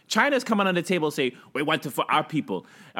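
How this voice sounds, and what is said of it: Put-on Chinese accent. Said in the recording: “Was that a Chinese accent?”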